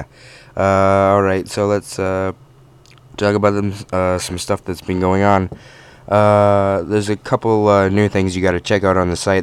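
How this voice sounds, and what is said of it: Voice sounds off and strained. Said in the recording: “My voice is really, really off right now.”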